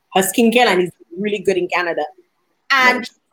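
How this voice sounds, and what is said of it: Caribbean Dominican accent. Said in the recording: “she heard my accent and she's like, where are you from? ... Dominica ... you're from the islands”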